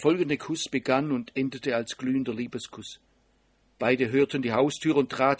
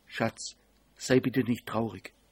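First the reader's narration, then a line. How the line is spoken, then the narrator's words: Relaxed smiling whisper. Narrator (German): Sie lächelte entspannt und flüsterte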